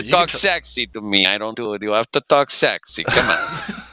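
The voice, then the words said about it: Rough Borat impression. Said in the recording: “that was ... Borat ... That was like a makeshift Borat. I can actually do a better one ... that was bad compared to his normal Borat skills”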